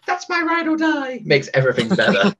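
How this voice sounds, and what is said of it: Imitates another person's voice. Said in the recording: “That was a terrible Mariah impression, by the way. ... No, you were right on there. I could tell exactly who you were. Dude, you were impersonating.”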